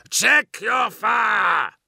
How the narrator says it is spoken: Grelgor bellowed

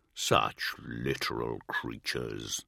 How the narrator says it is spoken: the lion growled

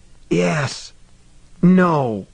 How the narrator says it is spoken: Billingsley whispered

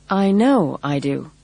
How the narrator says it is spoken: Rosie replied stiffly

